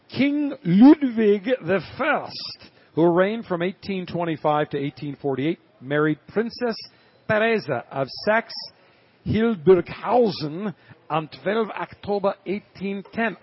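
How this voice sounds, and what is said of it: Put-on German accent. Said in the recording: “I can't help myself going into this German accent.”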